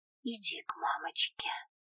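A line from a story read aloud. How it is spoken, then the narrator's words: Whisper. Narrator (Russian): прошептала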